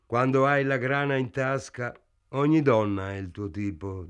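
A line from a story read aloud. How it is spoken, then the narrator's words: Plain. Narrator (Italian): disse Carp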